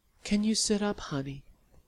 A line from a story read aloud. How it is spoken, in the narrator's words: Sally said gently